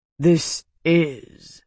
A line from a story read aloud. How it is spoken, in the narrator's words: Daroga rumbled